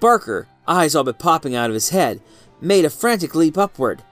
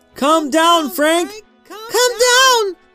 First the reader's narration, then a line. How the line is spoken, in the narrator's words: the crowd shrieked